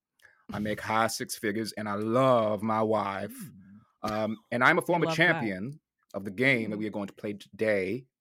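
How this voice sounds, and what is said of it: Fast-talking Southern US accent. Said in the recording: “fast-talking Southern”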